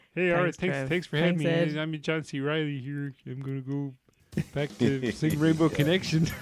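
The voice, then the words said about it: Imitates another person's voice. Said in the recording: “that's a good impression”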